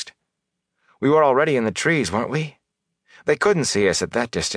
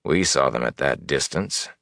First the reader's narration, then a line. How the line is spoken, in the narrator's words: Elias said dryly